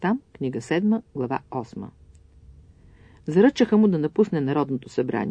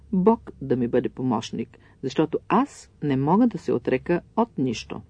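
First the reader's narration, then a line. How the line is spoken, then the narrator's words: Calm. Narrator (Bulgarian): докторът отговори спокойно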